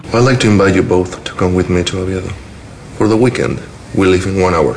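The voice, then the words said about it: Spanish accent. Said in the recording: “the Spanish accent ... Javier Bardem in Vicky Cristina Barcelona”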